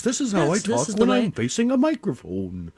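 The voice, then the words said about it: Announcer voice. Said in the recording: “This is my announcer voice.”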